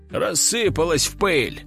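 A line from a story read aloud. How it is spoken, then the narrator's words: Wry grunt. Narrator (Russian): хмыкнул инспектор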